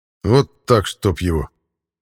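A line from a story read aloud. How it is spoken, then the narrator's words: Grumbling. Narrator (Russian): проворчал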